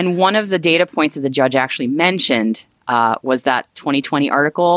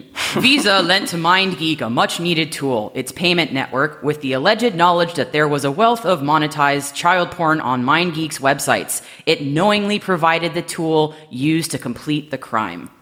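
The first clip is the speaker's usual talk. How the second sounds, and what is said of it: Mock formal judge's voice. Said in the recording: “in my best judging voice.”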